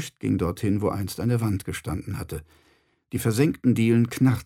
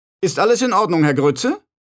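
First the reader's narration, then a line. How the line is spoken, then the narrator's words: Calling downward. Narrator (German): rief Feucht nach unten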